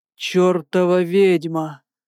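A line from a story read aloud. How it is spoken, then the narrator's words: Hoarse, breaking voice. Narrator (Russian): Просипел срывающимся голосом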